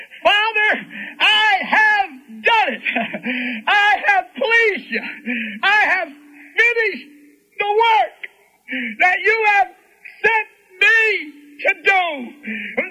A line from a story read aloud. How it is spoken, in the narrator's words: He cried out